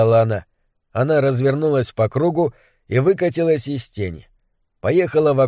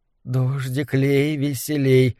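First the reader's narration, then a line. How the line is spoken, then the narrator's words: Soft murmured chant. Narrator (Russian): тихо приговаривала она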